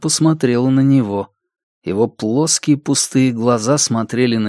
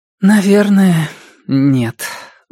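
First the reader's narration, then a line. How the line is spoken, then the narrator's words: Sighing. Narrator (Russian): вздохнула она наконец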